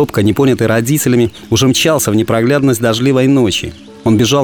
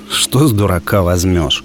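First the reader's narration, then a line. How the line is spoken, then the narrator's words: Annoyed sigh, father. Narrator (Russian): Отец лишь досадливо вздохнул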